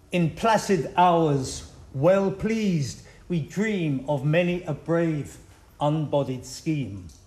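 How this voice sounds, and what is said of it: Non-native accent in English. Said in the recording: “originally in French, but I don't think that will help anybody with my accent”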